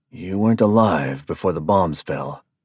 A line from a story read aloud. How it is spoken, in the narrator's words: DeWitt said in a hushed tone